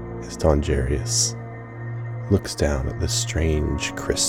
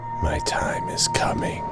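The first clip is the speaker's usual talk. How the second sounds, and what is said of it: Whispered line. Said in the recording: “In a whisper”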